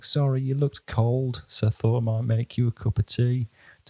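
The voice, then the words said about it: Put-on Yorkshire accent. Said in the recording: “has a Yorkshire accent”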